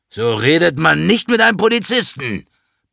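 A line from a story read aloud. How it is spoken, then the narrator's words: Bellowing. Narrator (German): brüllt Klaus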